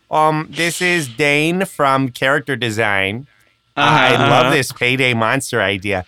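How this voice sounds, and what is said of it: Minnesotan Midwest accent. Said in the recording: “a bad Minnesotan Midwest accent”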